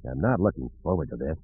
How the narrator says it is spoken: Han mumbled

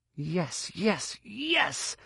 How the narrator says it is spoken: couldn't stop himself clenching both fists and hissing

